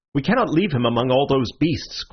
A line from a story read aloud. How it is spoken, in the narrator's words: cried Syme